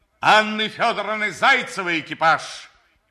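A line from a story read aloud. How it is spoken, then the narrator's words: Shouted. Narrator (Russian): закричал он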